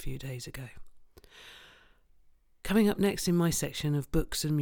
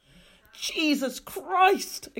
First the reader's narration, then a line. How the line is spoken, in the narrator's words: exclaimed Thomas Clayson